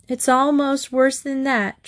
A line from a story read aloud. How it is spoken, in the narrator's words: Trixie sobbed